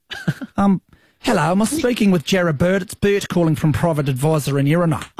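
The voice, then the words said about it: Put-on New Zealand accent. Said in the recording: “we'll need a bit of an accent ... Why don't you try a Kiwi one?”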